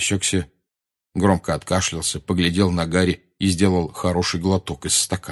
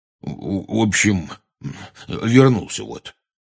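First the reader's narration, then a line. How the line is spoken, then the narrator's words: Weak mumble. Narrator (Russian): слабо промямлил он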